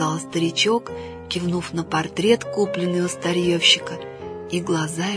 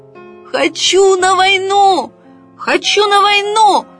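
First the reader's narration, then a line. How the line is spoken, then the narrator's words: Full-throated toy soldier shout. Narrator (Russian): Во все горло закричал оловянный солдатик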